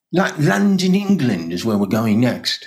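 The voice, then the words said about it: Mediocre put-on British accent. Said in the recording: “that's a mediocre British accent”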